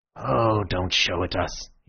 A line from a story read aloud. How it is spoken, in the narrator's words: he said wearily